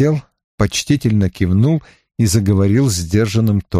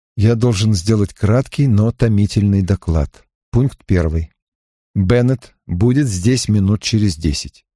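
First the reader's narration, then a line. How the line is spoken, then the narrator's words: Plain. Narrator (Russian): он сказал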